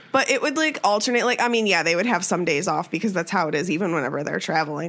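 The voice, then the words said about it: Deep, sick-sounding voice. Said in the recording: “I'm sick, so I'm sorry that I sound like a man.”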